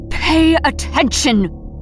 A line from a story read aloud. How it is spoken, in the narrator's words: Airless spat